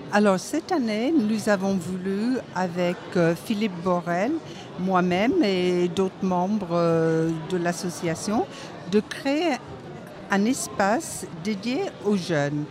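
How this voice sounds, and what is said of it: Sing-song regional French accent. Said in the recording (French): “le bel accent chantant que vous nous proposez”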